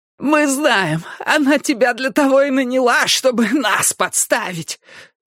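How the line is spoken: Hoarse rasp. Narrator (Russian): прохрипела Пиппа

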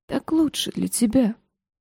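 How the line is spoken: Father whispering. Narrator (Russian): прошептал отец

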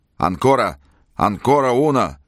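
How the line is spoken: Shout. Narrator (Russian): штабс-ротмистер крикнул

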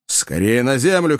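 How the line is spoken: Shouted. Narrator (Russian): крикнул Кеннеди

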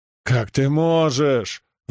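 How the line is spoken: Howling homeowner. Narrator (Russian): взвыл хозяин дома

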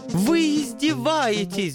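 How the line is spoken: Wounded howling angel. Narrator (Russian): взвыл ангел, видимо, его задело за живое

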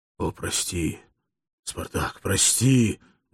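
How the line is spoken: Trembling pleading whisper. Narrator (Russian): взмолился Акномао, дрожащим от волнения шепотом

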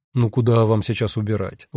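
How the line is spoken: Gentle question. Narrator (Russian): ласково спросил Гест

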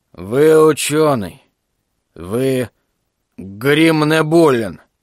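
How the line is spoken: Hoarse voice. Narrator (Russian): Гаруда произнес хриплым голосом

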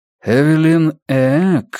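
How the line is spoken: Questioning drawl. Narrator (Russian): вопросительно протянул Персон

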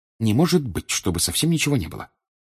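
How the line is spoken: Muttering. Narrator (Russian): пробормотала Гермиона

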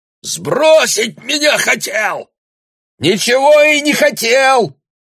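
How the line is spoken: Shouted even louder. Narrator (Russian): крикнул Бруно еще громче

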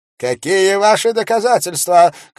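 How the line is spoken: Preacher shouting. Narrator (Russian): крикнул проповедник

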